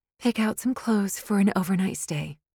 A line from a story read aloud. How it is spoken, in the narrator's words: Candace said